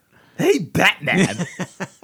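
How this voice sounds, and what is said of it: Hammy imitation of another person's voice. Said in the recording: “I'll do an impression of him doing it. ... It's very hammy”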